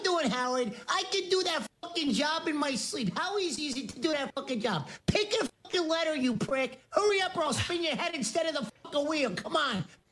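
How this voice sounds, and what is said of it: Joe Pesci impression. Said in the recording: “Joe Pesci Impersonator is a Wanker ... It's Joe Pesci ... That's someone doing an impression of Jim Brewer ... An impression of Jim Brewer doing Joe Pesci”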